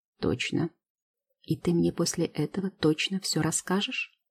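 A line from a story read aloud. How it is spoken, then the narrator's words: Timid clarifying question. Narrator (Russian): уточняет робко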